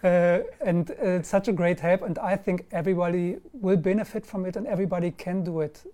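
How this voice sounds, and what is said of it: German accent. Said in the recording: “I'm German with this accent”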